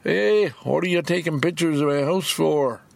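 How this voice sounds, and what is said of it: Weak put-on Maritime accent. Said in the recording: “in a very distinct Maritime accent ... That's not a very good accent”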